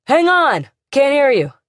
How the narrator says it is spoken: hollered back

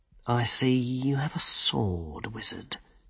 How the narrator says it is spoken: he said quietly

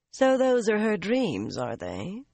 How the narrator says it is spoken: Carlinia said coolly

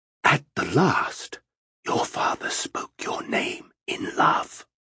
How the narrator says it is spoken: In a near whisper, Macross said

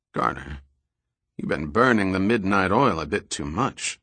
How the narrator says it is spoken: Sandecker said in a concerned tone

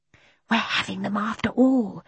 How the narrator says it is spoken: said Mary Poppins in a loud whisper

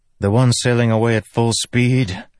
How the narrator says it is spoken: Kaladin said with a sigh

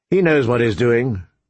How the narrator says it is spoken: Ned said calmly

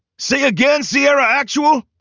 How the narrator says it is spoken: Hightower barked into his radio

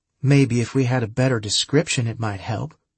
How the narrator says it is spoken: Julie said coldly

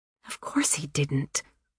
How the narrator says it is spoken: Anna whispered back, irritably

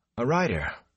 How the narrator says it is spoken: Rand said breathlessly

